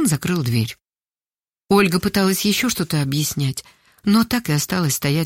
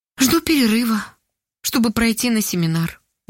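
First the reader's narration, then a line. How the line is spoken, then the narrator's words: Sad reply. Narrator (Russian): грустно ответила Ольга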